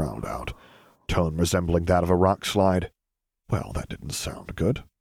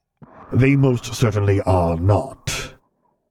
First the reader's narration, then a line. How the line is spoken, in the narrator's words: Vader growled out